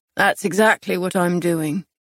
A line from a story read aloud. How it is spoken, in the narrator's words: he replied, his tone flat